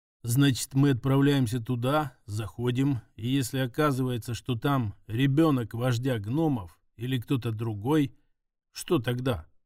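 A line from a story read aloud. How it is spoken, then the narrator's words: Plain. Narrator (Russian): спросила Катя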